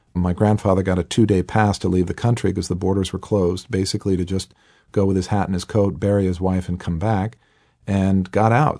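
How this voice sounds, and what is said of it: Boston accent. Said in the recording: “they ended up in the Boston area, hence my accent, this is where I'm born and raised”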